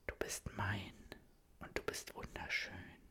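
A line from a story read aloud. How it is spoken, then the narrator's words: Whispered. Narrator (German): flüstert er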